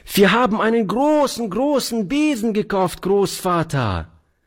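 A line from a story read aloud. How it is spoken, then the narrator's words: Delighted child's cry. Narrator (German): rief die Kleine voll Entzücken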